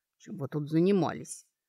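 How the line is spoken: Quiet question. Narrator (Russian): уже тихо, благо она подошла, спросил

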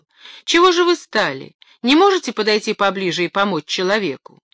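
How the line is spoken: Shouted. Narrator (Russian): закричал

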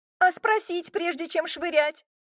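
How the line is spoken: Indignant yelling. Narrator (Russian): возмущенно заорала

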